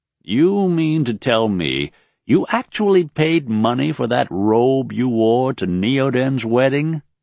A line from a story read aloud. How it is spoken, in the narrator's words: Roil asked, with a laugh